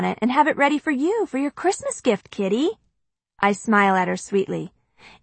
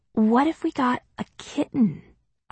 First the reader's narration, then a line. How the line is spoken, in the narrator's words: I whisper